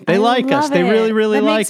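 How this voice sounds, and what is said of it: Imitates another person's voice. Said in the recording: “my Sally Field impersonation.”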